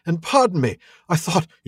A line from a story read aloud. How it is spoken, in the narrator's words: he cried